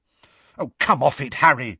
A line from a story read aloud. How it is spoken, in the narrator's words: said Hermione angrily